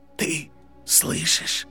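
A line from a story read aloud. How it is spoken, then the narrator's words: Old man's whisper. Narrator (Russian): прошептал старый волшебник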